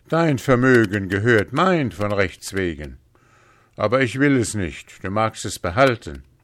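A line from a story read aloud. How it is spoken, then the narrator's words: Merchant calling out. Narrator (German): rief der Kaufmann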